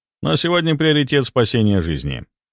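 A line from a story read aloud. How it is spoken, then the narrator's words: Calm reply. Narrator (Russian): спокойно ответил я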